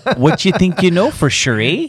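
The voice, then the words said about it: Put-on Canadian accent. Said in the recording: “We're going Canada? Canadian, is that what we're going for? ... he started his accent”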